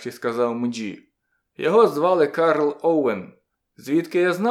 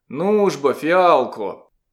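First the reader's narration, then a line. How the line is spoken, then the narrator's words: Muttered. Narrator (Ukrainian): Він щось буркнув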